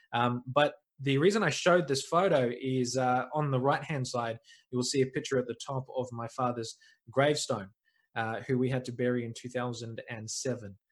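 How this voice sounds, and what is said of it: New Zealand accent. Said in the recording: “I am a New Zealander. You might be able to pick up the accent”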